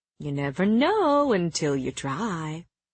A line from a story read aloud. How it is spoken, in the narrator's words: Helion purred